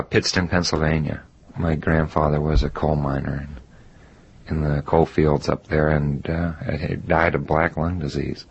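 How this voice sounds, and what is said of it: Slight Southern drawl. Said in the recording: “You have kind of a southern drawl.”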